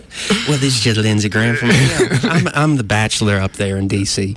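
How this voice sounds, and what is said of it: Imitates another person's voice. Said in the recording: “my Lindsey Graham impersonation? ... That's a pretty good one. You got a pretty good Lindsey Graham.”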